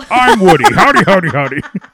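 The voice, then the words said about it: Imitates a cartoon character's voice. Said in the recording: “good an imitation”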